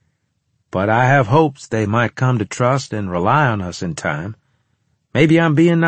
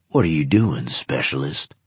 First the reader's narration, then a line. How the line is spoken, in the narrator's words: he demanded in a growling tone